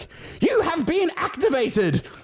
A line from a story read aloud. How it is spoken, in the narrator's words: a voice yell